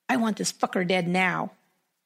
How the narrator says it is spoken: hissed

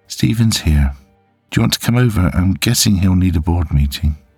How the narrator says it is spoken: she asked

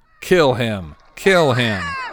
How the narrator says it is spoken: Ginny shouting

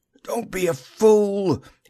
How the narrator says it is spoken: he croaked

